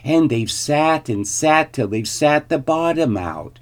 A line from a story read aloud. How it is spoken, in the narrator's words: squeaked the baby bear in his shrill little voice